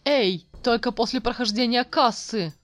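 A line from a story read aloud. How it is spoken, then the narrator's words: Exclamation. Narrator (Russian): воскликнул Элник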